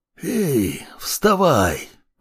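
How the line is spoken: Hoarse, unformed voice. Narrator (Russian): просипел он еще не прорезавшимся голосом

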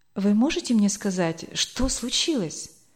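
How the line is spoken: Pale frightened whisper. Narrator (Russian): Бледнее прошептала Эльвира

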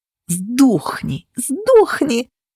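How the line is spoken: Snake hissing. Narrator (Russian): шипела сытая змея

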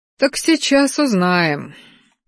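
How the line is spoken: Sighed. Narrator (Russian): вздохнул ректор

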